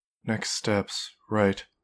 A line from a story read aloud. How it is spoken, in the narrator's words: she said quietly